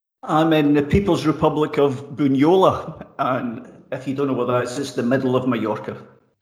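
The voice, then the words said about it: Scottish accent. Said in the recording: “You've got a very fine Scottish accent”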